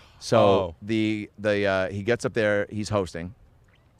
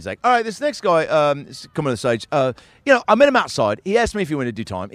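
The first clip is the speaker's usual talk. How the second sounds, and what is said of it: Put-on British accent. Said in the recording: “he's a British guy ... Your accent started so good.”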